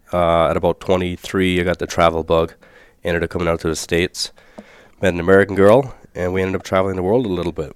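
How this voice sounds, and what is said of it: Irish accent. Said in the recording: “I was shocked by your accent. ... I'm born and raised in Ireland.”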